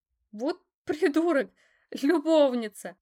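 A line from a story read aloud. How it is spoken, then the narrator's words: Forced out through loud laughter. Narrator (Russian): расхохоталась в голос, выдавив из себя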